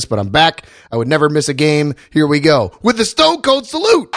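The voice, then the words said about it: Slightly sick-sounding voice. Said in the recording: “I'm a bit under the weather. My voice sounds a little bit different, and that's not a mic thing”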